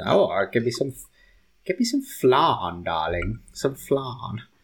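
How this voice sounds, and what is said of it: Put-on posh voice. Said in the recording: “It's like saying, it's like a posh way of saying something.”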